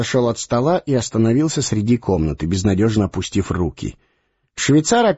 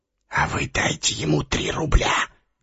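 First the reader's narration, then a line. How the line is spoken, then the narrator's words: Whisper. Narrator (Russian): шепнул швейцар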